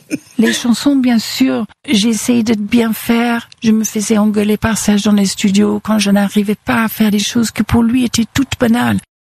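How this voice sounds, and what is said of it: English accent speaking French. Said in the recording (French): “avec son accent anglais”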